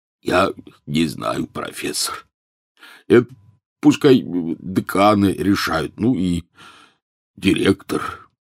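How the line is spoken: Hoarse after weeping. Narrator (Russian): Хагрид, все это время молча проплакавший в свой гигантский платок, прохрипел

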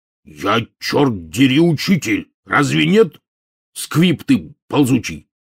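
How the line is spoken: Sudden angry bark. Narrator (Russian): мгновенно вспыхнув, рявкнул Хагрид

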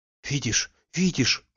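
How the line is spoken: Startled whisper. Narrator (Russian): вздрогнув, шептала

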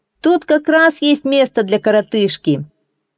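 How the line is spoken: Sailor shouting. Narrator (Russian): моряк, который работал на пароме, крикнул

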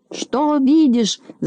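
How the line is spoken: Impatient shout. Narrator (Russian): закричал, сгорая от нетерпения, Знайка

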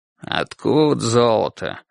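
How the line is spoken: Sleepy grumbling mutter. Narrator (Russian): пробормотал Ясон уже ворчливо, сонным голосом

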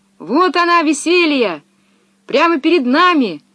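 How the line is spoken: Shouting. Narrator (Russian): закричала Пеппи

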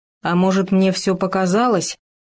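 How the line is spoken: Frightened mumble. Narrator (Russian): испуганно пробормотал Хома

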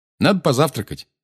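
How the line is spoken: Brisk, cheerful. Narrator (Russian): бодро сказал Гарри

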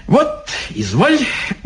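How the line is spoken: Cheerful old man, giggling. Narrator (Russian): бодренько заговорил старичок, хихикая

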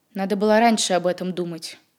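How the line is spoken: Cold. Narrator (Russian): холодно сказал Сотников

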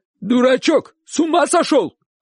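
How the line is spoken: Shouted. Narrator (Russian): крикнул дядя

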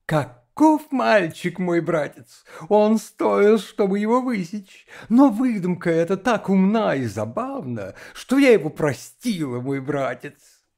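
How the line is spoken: Laughing, questioning. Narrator (Russian): засмеялась и вопросительно, глядя в лицо папа, сказала

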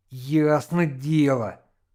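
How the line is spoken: Angry reply. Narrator (Russian): злобно ответил Яшка

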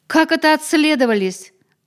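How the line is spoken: Shouting fisherman. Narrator (Russian): закричал рыбак

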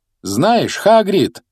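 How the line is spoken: Loud, over noise. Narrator (Russian): громко произнес Гарри, пытаясь заглушить шум тележки

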